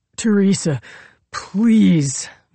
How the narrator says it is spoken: Marcus begged

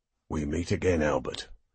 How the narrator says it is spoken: Halliday growled at him

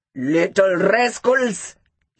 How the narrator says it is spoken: he shouted

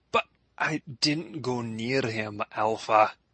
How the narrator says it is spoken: Clyde sputtered

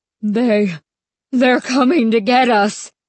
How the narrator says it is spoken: Stanley cried in a high, trembling voice

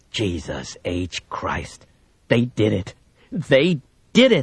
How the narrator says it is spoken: Briggs muttered to himself

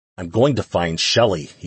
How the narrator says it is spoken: he growled

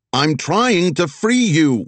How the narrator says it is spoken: Wags shouted at the beetle, wind whipping through the car

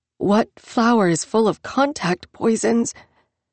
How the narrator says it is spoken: asked, her voice caught in her throat, around the edges of the receding pain and the adrenaline shock

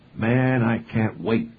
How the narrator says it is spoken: McClanahan exclaimed

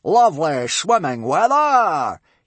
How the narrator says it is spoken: he roared delightedly

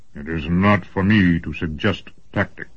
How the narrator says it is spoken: grumbled Hein Huss

